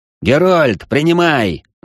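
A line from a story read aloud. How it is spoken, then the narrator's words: Yelled. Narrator (Russian): заорал я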